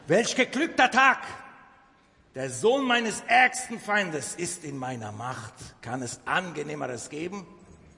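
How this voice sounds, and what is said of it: Put-on Turkish accent. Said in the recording (German): “türkischer Akzent”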